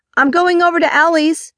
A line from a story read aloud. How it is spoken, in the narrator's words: hollers as she runs